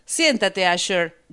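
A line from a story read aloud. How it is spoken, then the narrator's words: Shouting. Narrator (Spanish): gritó Pandora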